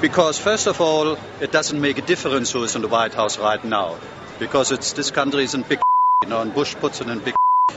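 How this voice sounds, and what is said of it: Speaks with a noticeable accent. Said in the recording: “Love that accent.”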